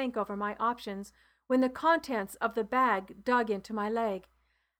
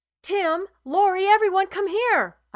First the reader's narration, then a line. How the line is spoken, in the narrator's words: I yelled as I ran into the tent